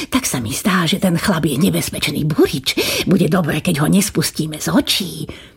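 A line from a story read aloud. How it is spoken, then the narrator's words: Whispering in ear. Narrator (Slovak): pošepkal kniežaťu do ucha kastelán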